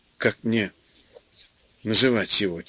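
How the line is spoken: Quiet question. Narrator (Russian): тихо спросила Люся мужа

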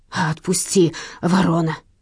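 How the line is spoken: Hissing thief. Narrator (Russian): шипел вор

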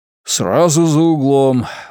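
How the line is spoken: Archbishop's breathless words. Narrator (Russian): выдохнул архиепископ

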